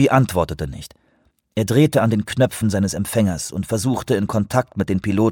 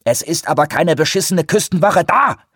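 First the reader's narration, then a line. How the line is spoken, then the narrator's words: Shouted. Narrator (German): schrie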